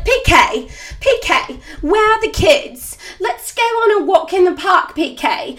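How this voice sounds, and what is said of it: Affected English accent, imitating someone. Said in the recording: “She's adopted like this English weird accent and she's from Connecticut”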